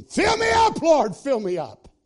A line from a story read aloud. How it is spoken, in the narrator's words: he'd scream